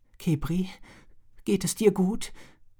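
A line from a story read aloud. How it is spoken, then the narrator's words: Trembling question. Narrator (German): fragte sie mit zitternder Stimme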